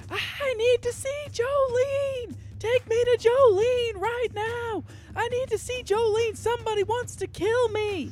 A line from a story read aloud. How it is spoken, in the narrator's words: she runs shrieking her head off